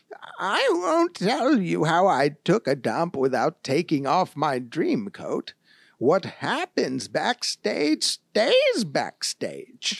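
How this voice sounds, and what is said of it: Put-on grandma voice. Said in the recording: “my accent ... It's a grandma.”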